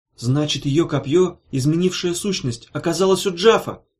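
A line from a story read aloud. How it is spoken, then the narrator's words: Exclaimed. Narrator (Russian): воскликнула она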